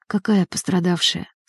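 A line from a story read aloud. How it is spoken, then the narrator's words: Weak voice, injured. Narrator (Russian): слабым голосом произнес лежавший на носилках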